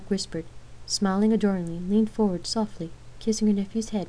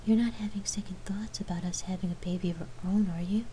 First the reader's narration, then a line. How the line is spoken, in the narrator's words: Lark asked in a whisper, hoping that wasn't the case